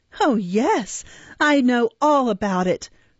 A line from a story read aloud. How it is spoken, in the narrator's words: replied the girl, laughing hysterically with a poor assumption of indifference